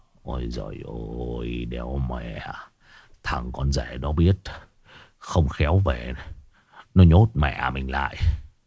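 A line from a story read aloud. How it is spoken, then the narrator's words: Muttering. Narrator (Vietnamese): Ông Long lẩm bẩm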